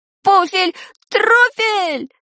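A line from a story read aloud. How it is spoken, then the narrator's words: Stunned yell. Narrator (Russian): завопил ошеломленный Шурасик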